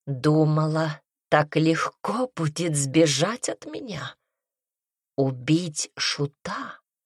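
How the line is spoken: Soft seductive voice. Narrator (Russian): Его голос звучал мягко и обольстительно

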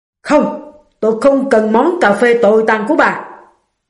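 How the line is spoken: Man yelling. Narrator (Vietnamese): ông ta hét lên

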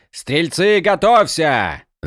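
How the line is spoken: Shouted. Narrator (Russian): закричал командир

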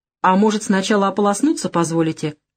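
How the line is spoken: Wry snort. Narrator (Russian): хмыкнул Савелий

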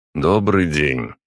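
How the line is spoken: Flat, colorless greeting. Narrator (Russian): бесцветным голосом поздоровался Путилин

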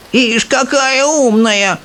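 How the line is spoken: Old woman yelling. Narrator (Russian): вопила бабушка Джозефина

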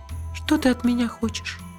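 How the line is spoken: Quiet female question. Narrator (Russian): тихо спросила она

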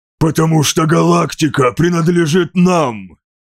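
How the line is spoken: Hiss. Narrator (Russian): Прошипел

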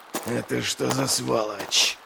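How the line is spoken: Growling. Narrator (Russian): прорычал он

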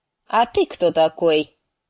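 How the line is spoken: Commanding. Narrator (Russian): спросил он командным тоном

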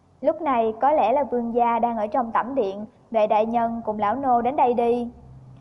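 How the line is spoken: Smiling. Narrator (Vietnamese): Vương Mộ Hàn cúi đầu mỉm cười, nói

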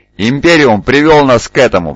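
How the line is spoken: Roared. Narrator (Russian): взревел Лютер

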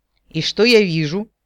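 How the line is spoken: Menacing. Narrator (Russian): грозно сощурился столь не кстати помянутый товарищ Дир

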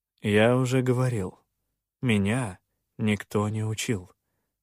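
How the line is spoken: Calm. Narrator (Russian): спокойно отозвался

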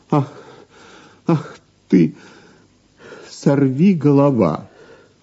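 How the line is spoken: Exclaim. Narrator (Russian): воскликнула

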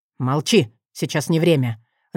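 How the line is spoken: Growl. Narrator (Russian): рыкнул он

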